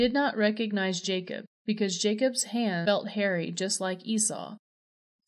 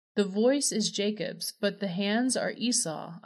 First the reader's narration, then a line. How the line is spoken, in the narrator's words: Isaac said